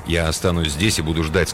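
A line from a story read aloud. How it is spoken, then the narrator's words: Plain. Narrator (Russian): сказал он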